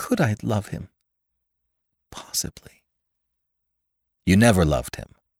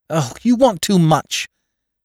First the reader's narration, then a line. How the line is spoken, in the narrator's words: she cried to Gatsby